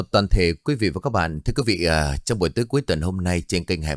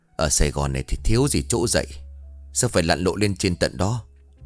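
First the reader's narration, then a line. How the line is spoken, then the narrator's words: Displeased mother grumbling. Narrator (Vietnamese): Mẹ của anh không vui, bà cằn nhằn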